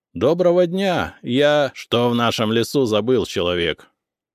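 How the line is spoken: Barked interruption. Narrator (Russian): рявкнул первый, перебив меня

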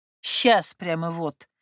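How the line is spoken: Snorting woman. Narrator (Russian): фыркнула ей в спину Мария Сергеевна

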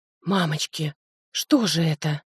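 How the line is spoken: Hoarse whisper. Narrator (Russian): хрипло прошептала я

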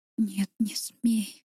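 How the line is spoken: Delirious whisper. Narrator (Russian): шептала, словно в бреду

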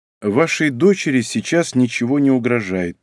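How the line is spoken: Calm. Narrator (Russian): произнес я спокойно

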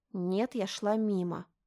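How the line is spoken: Through gritted teeth. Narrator (Russian): процедила Мишель

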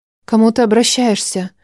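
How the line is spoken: Quiet question. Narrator (Russian): Тихо спросил у него

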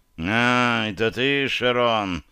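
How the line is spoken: Displeased male grumble. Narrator (Russian): С неудовольствием пробурчал мужчина

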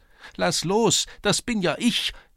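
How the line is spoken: High thin voice calling. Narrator (German): rief eine hohe, dünne Stimme

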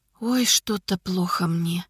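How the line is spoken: Faint whisper. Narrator (Russian): Шепотом сказала та

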